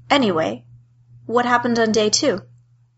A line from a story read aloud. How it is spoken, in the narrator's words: He said in a calm voice